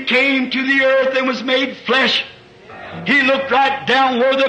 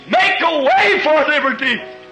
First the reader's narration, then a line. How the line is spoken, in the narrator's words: He screamed